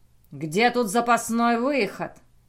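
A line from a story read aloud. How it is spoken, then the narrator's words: Rough unnatural growl. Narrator (Russian): Грубым и не своим голосом прорычал он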